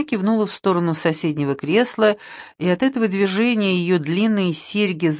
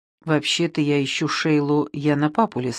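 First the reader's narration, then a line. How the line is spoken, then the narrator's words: Plain. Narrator (Russian): ответил Линли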